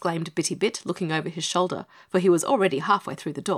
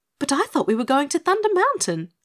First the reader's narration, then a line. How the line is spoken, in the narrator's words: exclaimed Dorothy